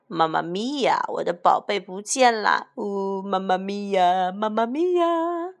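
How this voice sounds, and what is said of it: Loud crying, wailing voice. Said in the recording (Chinese): “马可波罗坐在木箱上大哭”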